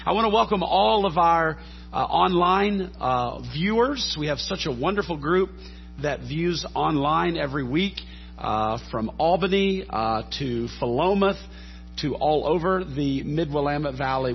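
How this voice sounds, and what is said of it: Scratchy voice. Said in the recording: “apologize for my voice quality, just battling a cold ... listening to a scratchy voice”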